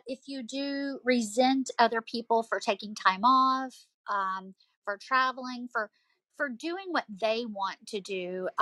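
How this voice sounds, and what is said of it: Southern American accent. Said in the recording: “as you can tell from my accent, I'm from the South”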